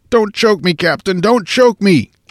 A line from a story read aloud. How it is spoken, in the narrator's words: Now faint and haggard with weakness, the Carolinian pleaded